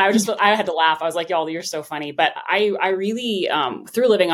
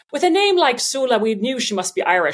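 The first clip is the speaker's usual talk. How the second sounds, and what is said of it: Bad put-on Irish accent. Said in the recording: “horrible Irish accent”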